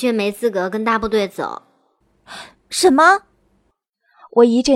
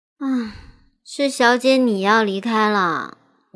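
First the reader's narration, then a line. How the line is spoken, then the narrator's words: Sighing. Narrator (Chinese): 新慧叹了口气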